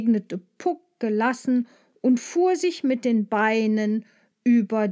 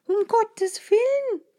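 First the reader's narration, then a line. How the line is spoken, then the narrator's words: Called out. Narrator (German): rief Maja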